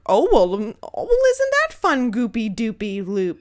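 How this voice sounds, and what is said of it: Kooky woman character voice. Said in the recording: “That's my impression ... like, kook ... They just, like, say crazy shit”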